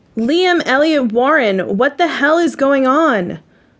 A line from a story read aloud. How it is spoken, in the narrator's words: I yell